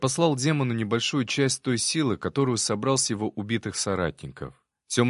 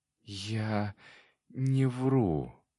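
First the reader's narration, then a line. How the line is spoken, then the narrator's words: Barely audible whisper, demon. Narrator (Russian): еле слышно прошептал демон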